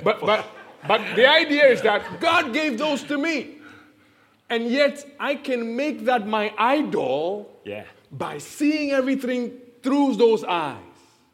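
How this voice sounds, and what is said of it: Heavy African accent. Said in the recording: “can anybody tell I'm African? ... My accent is heavy.”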